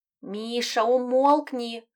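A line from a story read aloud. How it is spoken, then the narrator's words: Moaning. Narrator (Russian): простонал кот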